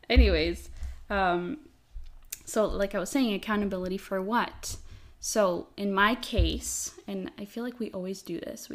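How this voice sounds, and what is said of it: Noticeable accent on certain words. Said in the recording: “Pay attention to how ... says accountability... sometimes my accent”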